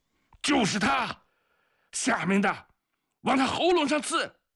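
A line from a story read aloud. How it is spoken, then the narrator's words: Breathless shout. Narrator (Chinese): 一个哥萨克用熟悉的声音气喘吁吁地喊了起来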